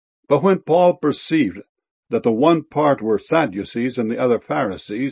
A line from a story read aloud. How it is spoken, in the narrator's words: he cried out in the council